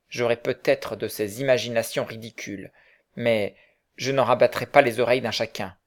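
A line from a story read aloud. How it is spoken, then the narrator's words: Curt interruption. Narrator (French): interrompit sèchement son collègue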